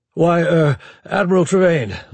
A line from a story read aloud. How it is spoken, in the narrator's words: LeBlanc stammered